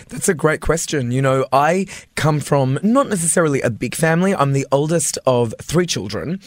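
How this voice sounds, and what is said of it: Australian accent. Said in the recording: “you can hear he's born in Australia, or at least that he's from Australia, mm-hmm. with that fabulous accent ... it sounds French when you say it”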